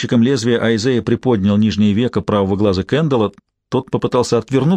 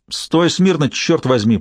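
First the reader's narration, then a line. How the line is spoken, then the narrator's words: Bandit barking sharply. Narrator (Russian): прикрикнул на него бандит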